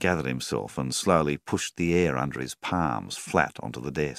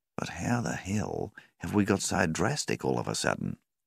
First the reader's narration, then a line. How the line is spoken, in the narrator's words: Rawlings sighed